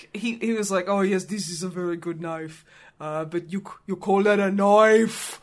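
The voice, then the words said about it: Bad Australian accent over Austrian. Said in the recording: “try and do an Australian accent ... trying to do Australian on top of an Austrian accent ... doing an accent you can do badly”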